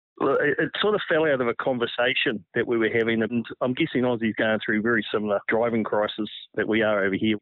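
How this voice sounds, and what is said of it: Strong New Zealand accent. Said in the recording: “your outrageous Kiwi accent”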